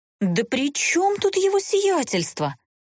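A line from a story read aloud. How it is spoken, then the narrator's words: Indignant. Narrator (Russian): возмущенно всплеснула руками глупышка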